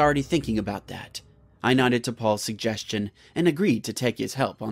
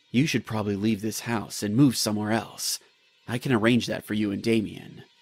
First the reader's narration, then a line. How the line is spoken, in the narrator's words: He spoke in a low voice